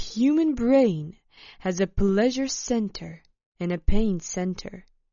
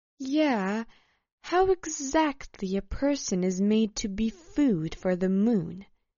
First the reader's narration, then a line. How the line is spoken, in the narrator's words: asked Alessa